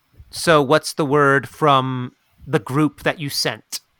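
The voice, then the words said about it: Playful squirrel character voice. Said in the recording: “I'm going to try to talk in my... see if I've picked up the squirrel accent”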